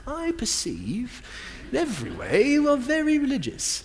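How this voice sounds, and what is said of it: Put-on English accent. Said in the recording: “I hear it in an English accent. ... it sounds very intelligent”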